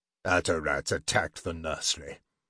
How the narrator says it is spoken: Geldrin said gravely

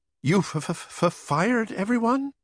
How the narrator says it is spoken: I stammered

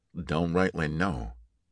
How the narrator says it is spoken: Hunter said tightly, quietly

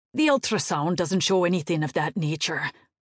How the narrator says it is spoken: the doctor snapped

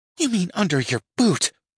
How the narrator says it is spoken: she hisses back

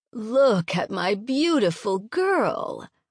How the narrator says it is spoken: cooed

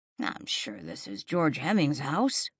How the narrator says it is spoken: Jack muttered

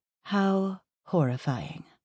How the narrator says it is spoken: I drawled

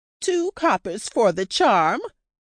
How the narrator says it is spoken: the tro cried

